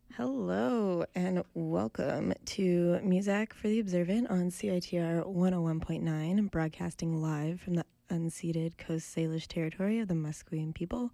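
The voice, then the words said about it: Sick voice, can't reach high register. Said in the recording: “As you can tell by my voice, I have been ill and it's totally robbed me of my ability to speak in a high register... I sound like a little puffy kitten trying to meow for the first time.”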